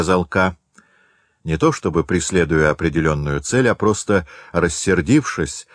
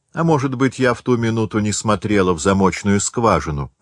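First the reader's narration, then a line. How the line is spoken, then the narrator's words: Plain. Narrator (Russian): сказала хозяйка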